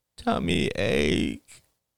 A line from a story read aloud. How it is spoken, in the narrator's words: whined Ben